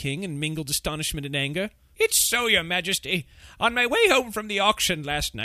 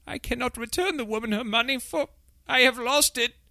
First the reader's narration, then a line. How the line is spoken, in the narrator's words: in a shaking voice